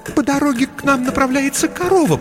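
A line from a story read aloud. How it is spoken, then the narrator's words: Faltering babble. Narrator (Russian): пролепетала она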